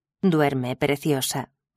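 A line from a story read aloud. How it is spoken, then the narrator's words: Murmured. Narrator (Spanish): murmuró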